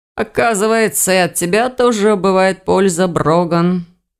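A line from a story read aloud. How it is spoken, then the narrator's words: Tired sigh. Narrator (Russian): устало вздохнул Ирс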